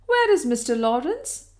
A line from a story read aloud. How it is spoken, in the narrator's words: she exclaimed